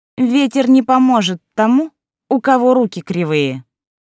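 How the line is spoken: Loud. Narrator (Russian): Лолита и громко сказала

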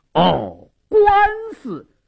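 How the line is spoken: Deliberately loud. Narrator (Chinese): 矿中故意大声说道

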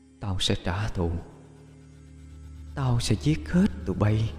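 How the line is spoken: Echoing whisper. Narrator (Vietnamese): bỏ lại một không gian văng vẳng tiếng thì thào

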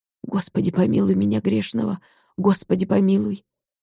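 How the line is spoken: Terrified muttering. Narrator (Russian): Николка в ужасе бормотал

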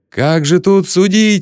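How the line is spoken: Referee yelling. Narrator (Russian): вопил рефери

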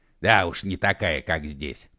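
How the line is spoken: Snorting. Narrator (Russian): хмыкнул Егор Алексеевич

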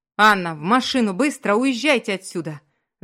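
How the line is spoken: Yelling. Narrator (Russian): заорал Маркус

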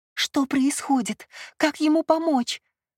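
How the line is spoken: Pleading. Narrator (Russian): взмолилась она

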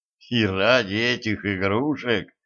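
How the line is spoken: Puzzled muttering. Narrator (Russian): недоуменно пробормотал император

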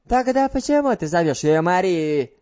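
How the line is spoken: Shouted. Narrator (Russian): закричала она

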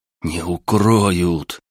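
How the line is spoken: Hissed. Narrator (Russian): прошипел я

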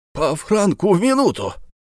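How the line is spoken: Exclamation. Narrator (Russian): воскликнул Бензуф

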